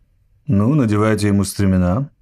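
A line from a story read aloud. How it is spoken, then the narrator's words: Calm. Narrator (Russian): спокойно сказал Гэнши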